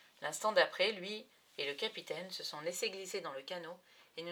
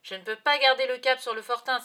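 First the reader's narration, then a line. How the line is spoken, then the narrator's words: Doctor shouting. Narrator (French): s'écrie le docteur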